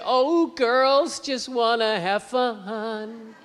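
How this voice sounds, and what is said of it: Sung imitation of a pop singer. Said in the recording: “that Cyndi Lauper imitation”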